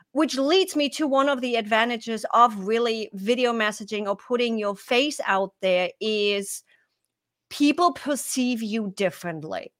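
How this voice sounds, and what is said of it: German accent. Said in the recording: “the German accent ... I do have this accent ... from being a German”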